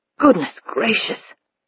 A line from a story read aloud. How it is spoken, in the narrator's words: Hackworth murmured